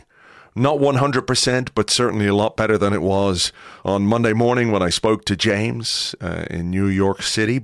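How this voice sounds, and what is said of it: Voice recovering from strain. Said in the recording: “my voice is on the mend, improving.”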